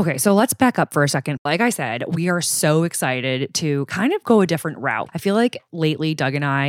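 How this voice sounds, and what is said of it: Usual voice. Nothing is said of it.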